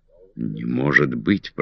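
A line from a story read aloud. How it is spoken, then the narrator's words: Breaking excited whisper. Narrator (Russian): прошептал я прерывающимся от волнения голосом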